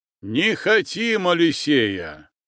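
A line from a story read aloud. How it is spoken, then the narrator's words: Shout joined by crowd. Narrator (Russian): выкрикнул Михейка, тут же поддержанный многими казаками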